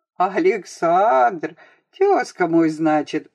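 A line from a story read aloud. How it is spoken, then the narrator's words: Tsar laughing. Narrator (Russian): засмеялся царь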